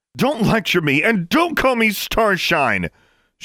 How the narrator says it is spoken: yelled at him

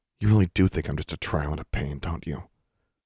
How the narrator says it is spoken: When he didn't answer, she muttered

